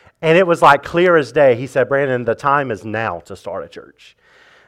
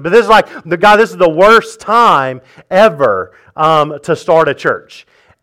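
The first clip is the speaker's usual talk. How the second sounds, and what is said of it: Sarcastic delivery. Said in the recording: “I'm being sarcastic, obviously”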